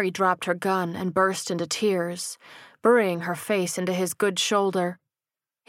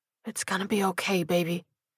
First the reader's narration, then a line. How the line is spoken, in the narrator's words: whispered in her ear